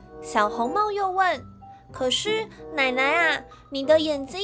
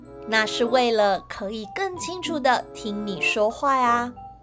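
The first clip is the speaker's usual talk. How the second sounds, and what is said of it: Wolf imitating grandma's voice. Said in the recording (Chinese): “大野狼假装奶奶的声音说”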